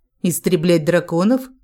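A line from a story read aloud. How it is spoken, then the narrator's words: Almost mocking question. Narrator (Russian): спросила я почти насмешливо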